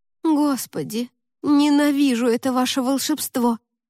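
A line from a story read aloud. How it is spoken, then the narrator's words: Moaning. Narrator (Russian): простонала Лика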